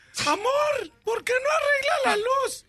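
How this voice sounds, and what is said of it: Imitated woman's voice. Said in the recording (Spanish): “con esa voz de mujer”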